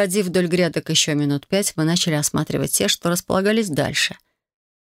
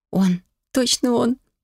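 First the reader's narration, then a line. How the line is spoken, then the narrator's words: Joyful breathless. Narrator (Russian): радостно выдохнула я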